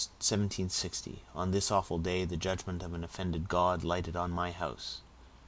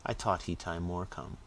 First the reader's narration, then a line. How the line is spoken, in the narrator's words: Caesar after looking timidly round the room, remarked